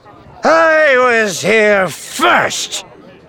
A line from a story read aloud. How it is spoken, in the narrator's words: Theron said, slurring his words